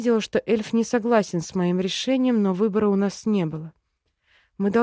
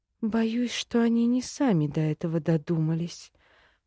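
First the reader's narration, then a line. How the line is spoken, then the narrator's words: Muttering. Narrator (Russian): пробормотала я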